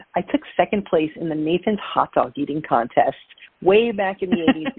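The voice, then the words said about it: Brooklyn accent, dropped R's. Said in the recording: “If you could tell by my accent, uh, if you listen carefully, you'll hear uh, sometimes the letter R is missing from my vocabulary. So I am from Brooklyn, New York.”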